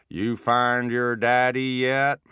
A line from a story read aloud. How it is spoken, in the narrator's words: he said with a pronounced New Orleans drawl